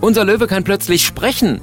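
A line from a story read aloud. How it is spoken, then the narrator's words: Calling out. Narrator (German): ruft er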